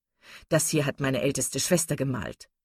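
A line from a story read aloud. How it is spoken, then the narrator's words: Plain. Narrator (German): sagte er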